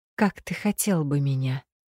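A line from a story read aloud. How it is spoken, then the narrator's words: Cautious, soft, tender question. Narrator (Russian): осторожно спросила, стараясь, чтобы голос звучал мягко и нежно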